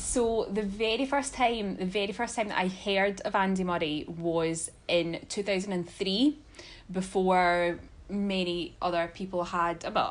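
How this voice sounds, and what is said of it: Scottish accent. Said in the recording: “if you can hear ... accent, it sounds like she's from Scotland ... are they from, like, Australia? ... they're from Scotland”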